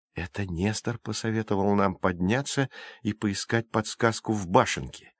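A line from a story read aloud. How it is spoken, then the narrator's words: Whisper. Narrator (Russian): прошептал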